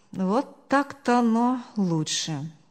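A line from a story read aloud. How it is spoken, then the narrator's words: Relieved sigh. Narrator (Russian): Успокоенно вздохнул он, сам не веря, что все так легко разрешилось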